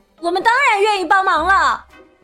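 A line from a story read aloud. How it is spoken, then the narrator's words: Children speaking loudly. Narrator (Chinese): 孩子们 大声说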